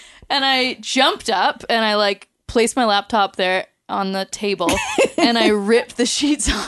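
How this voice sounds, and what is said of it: Usual voice. Nothing is said of it.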